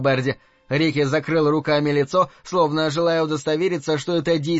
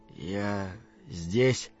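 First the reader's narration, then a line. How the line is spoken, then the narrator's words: Quiet. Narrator (Russian): тихо произнес Рики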